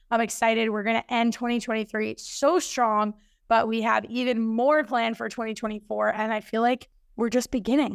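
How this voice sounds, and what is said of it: Slightly hoarse voice. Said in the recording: “my voice is still a little bit hoarse ... I was clearly doing way too much talking”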